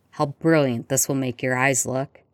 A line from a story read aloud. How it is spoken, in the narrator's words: Sirius said, his voice a growl low in his chest